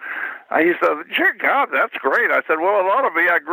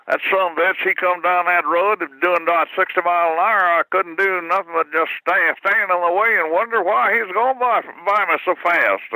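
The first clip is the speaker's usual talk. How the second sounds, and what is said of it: Rural Missouri drawl. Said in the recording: “see what your accent is ... I grew up in Missouri ... I know how these guys talk”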